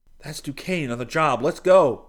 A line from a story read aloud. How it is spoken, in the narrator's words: Seton cried